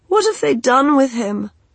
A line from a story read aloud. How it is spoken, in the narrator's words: asked Fever, feeling angry at herself